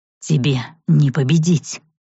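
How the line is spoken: Vampire's growl. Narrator (Russian): прорычал вампир

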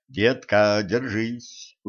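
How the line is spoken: Quick whisper. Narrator (Russian): успел шепнуть Кощей

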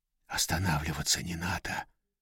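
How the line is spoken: Whisper. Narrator (Russian): прошептал Сергей

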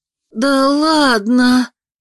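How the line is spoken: Delighted breathless gasp. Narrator (Russian): восхищенно выдохнула Анна

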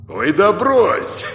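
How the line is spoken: Hoarse laugh. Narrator (Russian): Хрипло рассмеялся Влад

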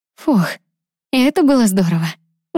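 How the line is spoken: Breathless exhale. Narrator (Russian): выдохнула Лиза

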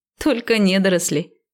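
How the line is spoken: Giggling. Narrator (Russian): хихикнула я

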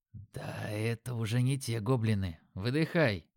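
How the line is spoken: Whisper. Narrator (Russian): прошептал

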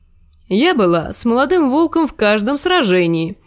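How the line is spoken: Cheerful remark. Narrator (Russian): весело заметила Дейси

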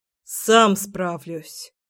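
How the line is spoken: Grumbling. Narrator (Russian): проворчал Сёма

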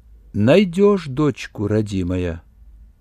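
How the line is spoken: Old woman, quiet but clear. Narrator (Russian): все так же негромко, но ясно произнесла старуха

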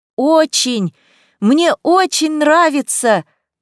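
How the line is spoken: Shouting over wind. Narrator (Russian): прокричала я, сражаясь с ветром

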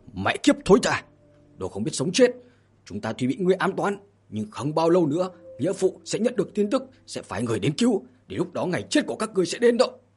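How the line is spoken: Loud cursing shout. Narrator (Vietnamese): tướng quân liền hét lớn chửi mắng

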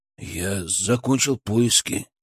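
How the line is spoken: Quiet. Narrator (Russian): тихо сказал он

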